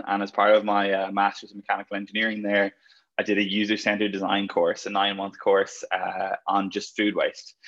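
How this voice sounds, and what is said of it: Irish accent. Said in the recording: “if you couldn't tell by the accent, originally from Ireland”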